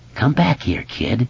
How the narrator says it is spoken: the hoarse voice whispered

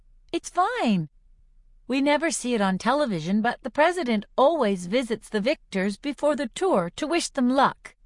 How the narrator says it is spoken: I say brightly

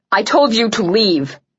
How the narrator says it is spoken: I barked at her

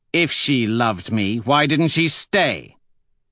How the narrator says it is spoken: He says sharply

